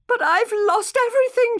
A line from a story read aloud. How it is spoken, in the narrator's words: said, sobbing